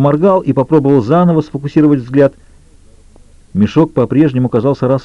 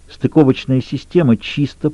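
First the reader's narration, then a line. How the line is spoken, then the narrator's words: Through gritted teeth. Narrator (Russian): произнесла Джилл сквозь зубы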